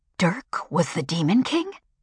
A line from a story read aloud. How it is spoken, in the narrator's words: Ken gasped